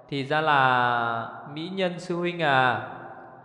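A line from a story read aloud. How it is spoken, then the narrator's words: Slow, smiling, resentful. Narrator (Vietnamese): thù cũ thêm hận mới, mỉm cười chậm rãi nói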